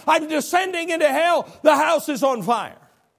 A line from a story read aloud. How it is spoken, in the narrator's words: every time he would scream